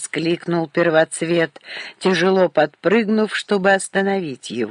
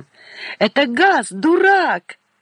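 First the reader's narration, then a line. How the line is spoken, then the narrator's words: Shout. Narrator (Russian): крикнул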